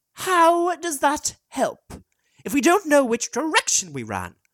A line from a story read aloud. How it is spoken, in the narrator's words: snapped Con